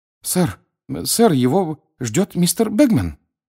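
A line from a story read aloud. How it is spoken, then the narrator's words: Frightened speech. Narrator (Russian): испуганно проговорил он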